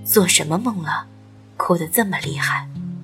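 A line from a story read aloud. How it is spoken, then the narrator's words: Sighing. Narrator (Chinese): 他叹息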